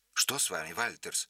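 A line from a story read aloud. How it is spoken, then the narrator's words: Sharp question. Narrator (Russian): резко спросил его Байнес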